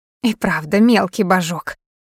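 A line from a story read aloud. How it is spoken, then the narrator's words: Grumble. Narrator (Russian): проворчала Дита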